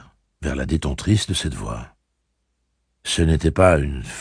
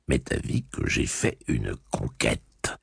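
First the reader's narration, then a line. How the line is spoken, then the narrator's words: Inward snicker. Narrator (French): ricana-t-il intérieurement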